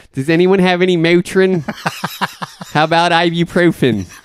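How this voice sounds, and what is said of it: Put-on accent. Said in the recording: “I hate this accent.”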